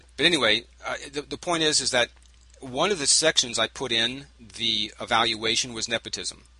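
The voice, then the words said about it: Strained, worn-out voice. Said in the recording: “why my voice is going bad”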